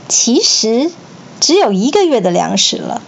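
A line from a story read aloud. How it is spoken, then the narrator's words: Soft, amused voice. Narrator (Chinese): 曹操也笑了，轻声细语对许攸说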